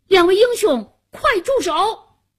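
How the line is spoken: Shouting loudly. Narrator (Chinese): 夏楠高声喊道

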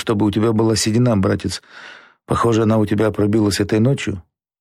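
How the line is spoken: Whisper. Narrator (Russian): прошептал Наиль Нургалиев

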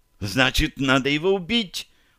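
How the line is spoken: Sudden exclamation. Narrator (Russian): вдруг воскликнула Таша

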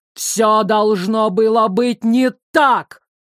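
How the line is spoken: Barking, wounded. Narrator (Russian): рявкнул уязвленно король

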